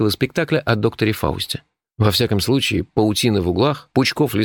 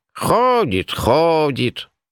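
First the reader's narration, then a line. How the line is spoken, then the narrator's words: Mild grumbling. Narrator (Russian): На удивление беззлобно проворчала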